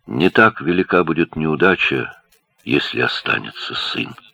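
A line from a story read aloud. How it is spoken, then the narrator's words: Very quiet. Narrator (Russian): Ингун выговорила совсем тихо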